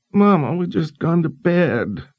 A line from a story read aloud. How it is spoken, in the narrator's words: Bruce whined